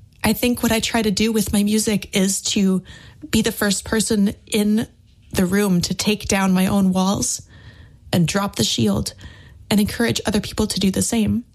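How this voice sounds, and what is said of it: Tearful, emotional voice. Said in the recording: “hear the tears in my voice.”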